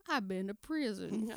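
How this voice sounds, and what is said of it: T.I. impression, southern drawl. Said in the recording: “That little southern drawl that he's got”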